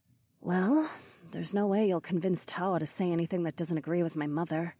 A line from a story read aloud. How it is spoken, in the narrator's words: Nokomis muttered